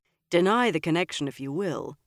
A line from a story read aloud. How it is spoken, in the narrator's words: Galad told Elaine gravely